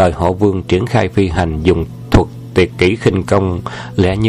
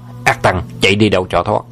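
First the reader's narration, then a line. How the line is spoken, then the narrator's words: Loud angry shout. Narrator (Vietnamese): Vương Trùng Dương quát to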